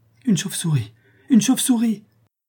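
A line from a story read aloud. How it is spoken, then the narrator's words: Frantic cry. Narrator (French): s'écria Barbara éperdue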